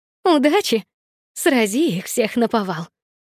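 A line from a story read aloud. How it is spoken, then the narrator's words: Joyful female exclamation. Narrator (Russian): Радостно воскликнула Елена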